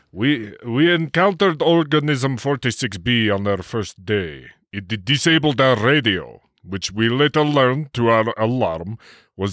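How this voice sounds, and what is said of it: Put-on Russian accent. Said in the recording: “remember, he's Russian ... I'll help you with the accent if you need.”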